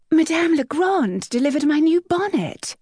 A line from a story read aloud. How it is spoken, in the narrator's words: her friend Lavinia cried